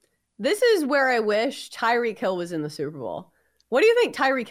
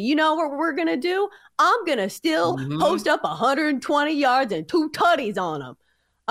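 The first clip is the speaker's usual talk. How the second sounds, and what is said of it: Imitates another person's voice. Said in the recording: “your Tyreek Hill impression.”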